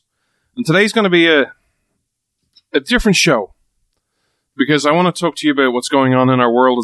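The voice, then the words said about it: Irish accent. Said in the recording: “This Irish man stands with America ... the show where you come for the accent”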